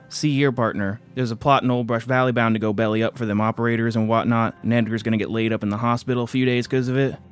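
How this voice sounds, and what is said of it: Put-on southern accent. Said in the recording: “Why did you do a southern accent just now? ... Michael has a southern accent”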